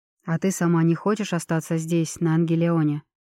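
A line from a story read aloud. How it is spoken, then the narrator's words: Soft question. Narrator (Russian): мягко спросил Кассиан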